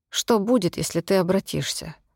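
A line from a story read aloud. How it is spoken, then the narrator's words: Detached, strange voice. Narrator (Russian): спросила я не своим, отстраненным голосом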